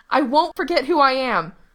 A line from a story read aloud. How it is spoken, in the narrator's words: Gerard yelled through the glass